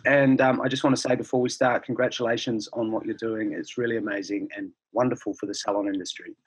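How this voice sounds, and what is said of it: Hoarse, strained voice. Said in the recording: “I've lost my voice.”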